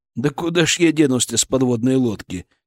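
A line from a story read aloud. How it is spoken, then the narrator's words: Heavy sigh. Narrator (Russian): тяжко вздохнул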